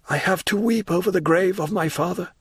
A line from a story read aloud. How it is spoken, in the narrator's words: replied Morel in a broken voice